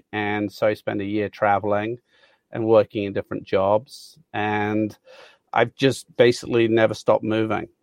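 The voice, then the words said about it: Blended Mid-Atlantic British accent. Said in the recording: “my accent is a blend, I think, of being in Southern Africa, Australia, and the US. People call it Mid-Atlantic. So British people don't believe I'm British, and Americans say I have a great English accent ... I don't think you would pick out Birmingham.”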